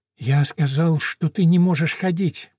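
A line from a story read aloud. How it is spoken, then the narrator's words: Whispered. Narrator (Russian): прошептал репортер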